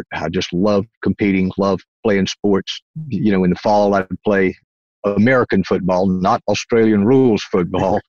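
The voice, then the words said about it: Southern US accent. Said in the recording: “Originally, I'm from North Carolina. That's the East Coast, what we call the South here in the United States. And that's where this accent comes from.”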